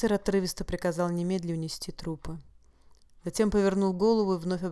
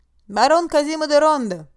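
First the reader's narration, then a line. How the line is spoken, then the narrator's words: Shout. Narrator (Russian): крикнул ему Казима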